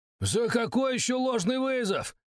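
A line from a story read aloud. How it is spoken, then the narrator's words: Shouting. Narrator (Russian): кричал Бахтияров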